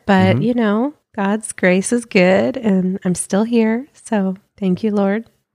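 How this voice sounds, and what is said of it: Sounds sick, slightly congested. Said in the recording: “This show makes you well when you're sick ... your nose is not running ... you can kind of hear it in my voice a little bit”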